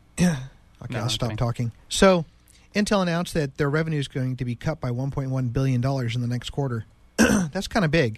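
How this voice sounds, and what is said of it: Weak, strained sick-sounding voice. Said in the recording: “I'm sorry about my voice. I've been sick. I just can't seem to get my voice back.”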